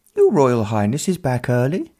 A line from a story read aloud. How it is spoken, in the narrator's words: one of the equerries piped up, having hurried into the hall